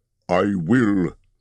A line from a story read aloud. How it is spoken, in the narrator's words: said Thorin grimly